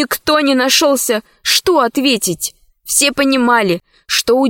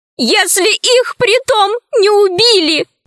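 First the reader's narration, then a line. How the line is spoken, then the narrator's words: Sobbing. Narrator (Russian): сказала рабыня, всхлипывая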